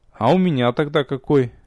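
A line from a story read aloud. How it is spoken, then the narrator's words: Joyless snort. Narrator (Russian): невесело хмыкнул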